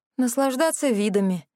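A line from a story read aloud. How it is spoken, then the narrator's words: Answer with a sigh. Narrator (Russian): ответила я и вздохнула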